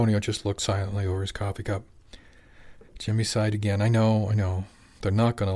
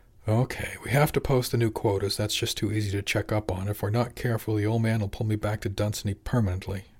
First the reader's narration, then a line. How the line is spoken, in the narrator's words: Jimmy sighed